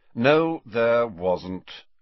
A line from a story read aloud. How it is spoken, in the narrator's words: said Snape in a bored voice